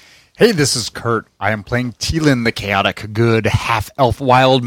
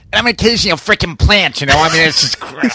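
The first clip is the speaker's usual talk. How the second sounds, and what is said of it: Put-on Boston accent. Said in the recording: “With a Boston accent.”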